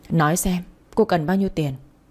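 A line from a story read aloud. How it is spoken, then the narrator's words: Forced steady voice. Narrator (Vietnamese): cố gắng lắm mới không để cho giọng nói của mình trở nên run rẩy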